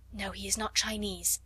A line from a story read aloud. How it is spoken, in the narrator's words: Sarah whispered back